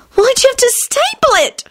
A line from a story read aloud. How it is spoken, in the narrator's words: She screeched